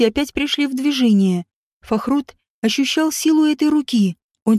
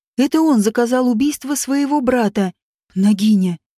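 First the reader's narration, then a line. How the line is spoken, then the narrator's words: Hoarse voice. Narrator (Russian): услышал он еще одно хриплое слово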